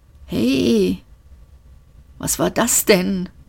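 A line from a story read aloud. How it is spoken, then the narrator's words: Hoarse murmur. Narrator (German): murmelte er heiser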